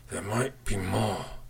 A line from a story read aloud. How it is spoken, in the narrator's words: he croaked through gritted teeth